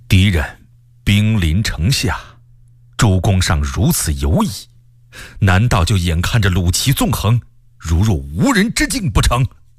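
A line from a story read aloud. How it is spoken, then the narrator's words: Very angry, harsh. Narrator (Chinese): 卢象升大为生气，厉声说道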